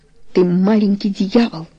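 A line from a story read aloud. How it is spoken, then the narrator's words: Muttered. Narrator (Russian): пробормотал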